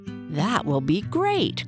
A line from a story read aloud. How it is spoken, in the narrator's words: cried Sam